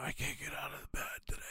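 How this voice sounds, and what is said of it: Feigned sick, weak voice. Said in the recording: “I'm going to play sick.”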